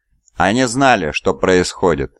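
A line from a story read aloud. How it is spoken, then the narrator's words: Plain. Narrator (Russian): сказал Ксафин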